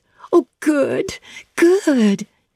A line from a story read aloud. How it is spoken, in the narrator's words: she exclaimed